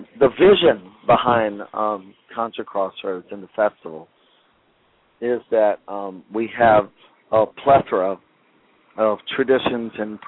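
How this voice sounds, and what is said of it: Strained, fading voice. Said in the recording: “my voice is a little wonky. It's going out a little bit”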